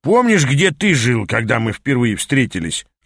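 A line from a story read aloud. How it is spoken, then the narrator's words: Snapped. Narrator (Russian): огрызнулся мой наставник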